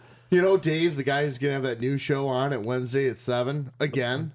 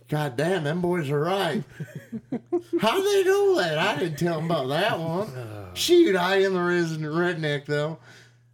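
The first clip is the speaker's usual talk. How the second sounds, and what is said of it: Imitates another person's voice. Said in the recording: “Pretty good Dave impression”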